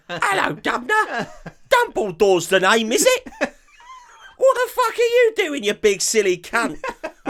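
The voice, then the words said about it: Exaggerated British child-actor accent. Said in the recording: “they put on a more British accent ... They sound like Paul from Bedknobs and Broomsticks ... Like they're all trying to sell a paper ... On a street corner”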